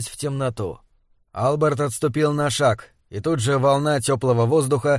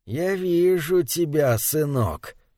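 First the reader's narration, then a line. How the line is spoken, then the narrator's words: Purring. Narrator (Russian): промурлыкал он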